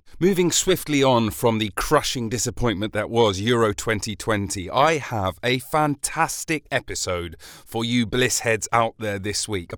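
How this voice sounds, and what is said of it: Slightly hoarse voice. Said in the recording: “You may be able to hear that my voice is a little bit hoarse. I wonder if that's got to do with yelling about football”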